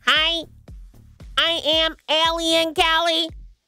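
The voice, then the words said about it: Very high-pitched alien voice. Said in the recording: “That's my impression. ... Just very high-pitched.”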